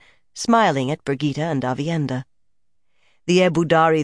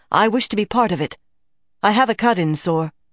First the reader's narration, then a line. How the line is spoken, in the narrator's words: Avienda put in eagerly